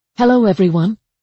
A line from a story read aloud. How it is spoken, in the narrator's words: she said cheerfully